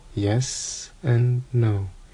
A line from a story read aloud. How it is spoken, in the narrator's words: said Dumbledore quietly